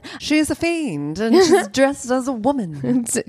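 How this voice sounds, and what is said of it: Put-on transatlantic accent. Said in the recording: “Can you do that in the transatlantic accent, please?”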